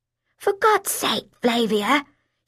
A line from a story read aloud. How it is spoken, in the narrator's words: she said in a quavering voice